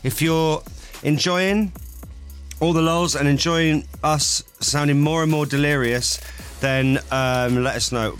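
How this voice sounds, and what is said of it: Tired, slightly slurred speech. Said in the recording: “you sound like you're slurring a little bit. You do sound tired.”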